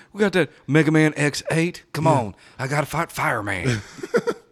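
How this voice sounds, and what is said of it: Imitates another person's voice, Elvis-like. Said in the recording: “the Bill Clinton impersonation sounds more like Elvis”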